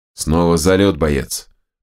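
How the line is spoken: Through gritted teeth. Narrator (Russian): процедил Терехов

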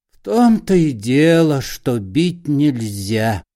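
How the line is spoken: Hypocritical sigh. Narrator (Russian): лицемерно вздохнул Паниковский

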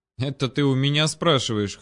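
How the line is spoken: Raven, scoffing. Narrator (Russian): хмыкнул ворон

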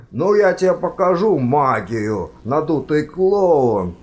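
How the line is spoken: Yelling. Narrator (Russian): завопил декан

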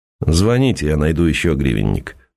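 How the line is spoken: Dry. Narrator (Russian): сухо сказал Сергей

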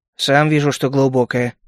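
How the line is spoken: Muttered under breath. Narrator (Russian): буркнул я себе под нос

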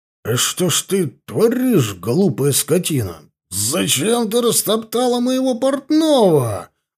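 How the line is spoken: Indignant drunken yelling. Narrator (Russian): Возмущенно заорал я пьяным голосом

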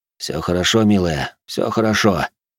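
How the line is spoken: Soft-spoken. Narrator (Russian): негромко произнес я

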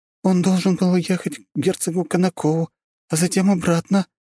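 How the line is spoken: Trembling voice. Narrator (Russian): дрожащим голосом произнесла она

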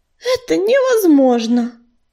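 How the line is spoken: Sighing. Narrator (Russian): вздохнула кисточка

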